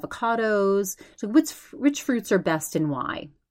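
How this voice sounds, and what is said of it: Imitated pretty English accent. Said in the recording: “She has that, you know, pretty English accent.”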